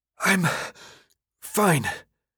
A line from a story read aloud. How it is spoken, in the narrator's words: said between breaths